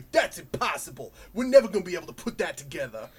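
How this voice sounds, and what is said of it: Thick New York accent. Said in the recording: “they have really thick New York accents.”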